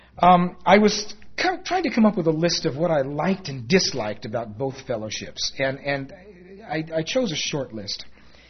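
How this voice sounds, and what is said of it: New York accent. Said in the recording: “I do have an accent, but it's a New York accent”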